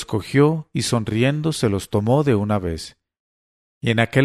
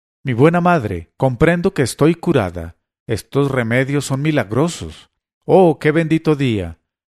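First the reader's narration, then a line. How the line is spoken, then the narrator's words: Exclaiming. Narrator (Spanish): exclamó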